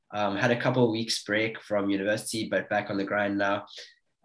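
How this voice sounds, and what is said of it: Sick, flu-affected voice. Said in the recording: “I'm sort of nursing a bit of a flu at the moment, so if my voice is a little bit different from usual, that's why.”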